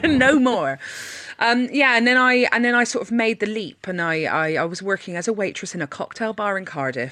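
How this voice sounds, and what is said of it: Bristolian accent. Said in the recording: “he had my accent. ... This is some weird Bristolian thing. ... a lot of Bristolians with this accent”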